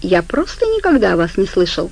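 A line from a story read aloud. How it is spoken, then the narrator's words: Shark, thoughtful. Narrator (Russian): задумчиво проговорил акула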